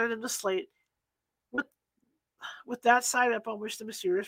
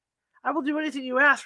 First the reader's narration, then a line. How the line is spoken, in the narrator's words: replied the passenger